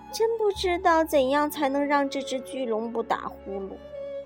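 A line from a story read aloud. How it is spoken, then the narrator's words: Timid sigh. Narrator (Chinese): 胆小的柔柔叹了口气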